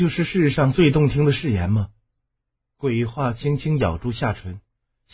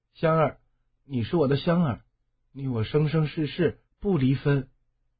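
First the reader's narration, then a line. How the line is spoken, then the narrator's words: Tender, soft. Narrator (Chinese): 烟雨 声音和顺地滴出水来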